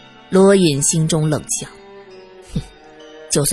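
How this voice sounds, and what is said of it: Usual voice. Nothing is said of it.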